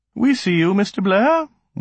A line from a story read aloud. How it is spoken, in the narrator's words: one said in a pleasant voice